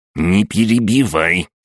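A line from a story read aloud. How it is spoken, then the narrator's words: Angry old woman. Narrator (Russian): сердито покачала головой старушка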